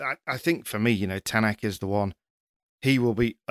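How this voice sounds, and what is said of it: Usual voice. Nothing is said of it.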